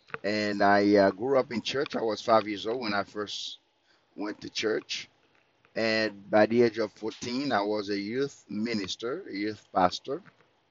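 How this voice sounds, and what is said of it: Thick French accent. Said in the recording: “You can hear that thick French accent.”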